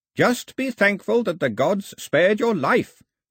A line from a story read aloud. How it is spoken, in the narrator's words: shouted the old man